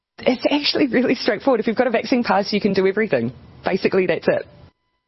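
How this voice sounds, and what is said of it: New Zealand accent. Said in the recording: “she's got a horrible New Zealand accent. Her name is Jacinda Ardern”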